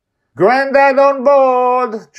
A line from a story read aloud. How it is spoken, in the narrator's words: Joy yells from the helm